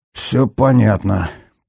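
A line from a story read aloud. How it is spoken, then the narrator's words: Muttering. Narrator (Russian): пробормотал Глеб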